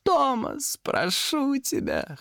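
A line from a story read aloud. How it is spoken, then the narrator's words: Whimpering. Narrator (Russian): хныкал он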